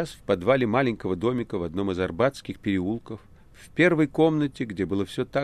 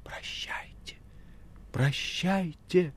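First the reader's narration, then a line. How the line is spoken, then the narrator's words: Quiet exclamation. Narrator (Russian): Маргарита тихо воскликнула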